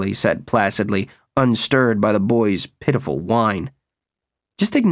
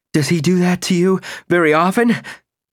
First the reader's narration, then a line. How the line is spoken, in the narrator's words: Nick panted